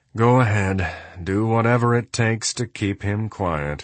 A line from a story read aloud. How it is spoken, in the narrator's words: with a tired sigh said